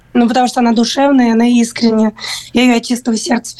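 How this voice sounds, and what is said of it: Strained, hoarse voice. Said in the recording (Russian): “Я даже голос сорвала.”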